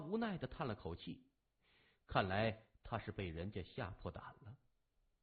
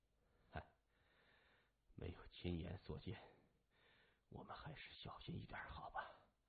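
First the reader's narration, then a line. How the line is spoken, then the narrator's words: Sighing. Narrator (Chinese): 麻风感叹了一声说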